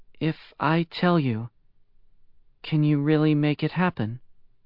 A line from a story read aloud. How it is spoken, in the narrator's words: said, hesitantly